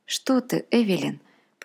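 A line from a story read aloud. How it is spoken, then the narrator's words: Muttered. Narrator (Russian): пробормотал папа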